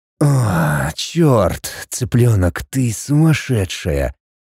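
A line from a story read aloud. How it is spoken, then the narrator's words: Moaning man. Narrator (Russian): Простонал мужчина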